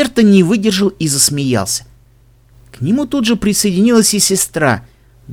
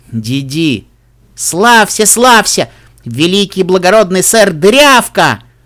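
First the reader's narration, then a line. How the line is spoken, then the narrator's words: Loud. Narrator (Russian): громко произнесла Дейдрим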